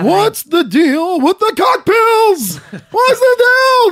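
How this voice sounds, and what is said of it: Poor impression of a comedian. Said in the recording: “I can't do a good Seinfeld... I can't do my Seinfeld expression. Impersonation sucks. It sucks. I should be booed.”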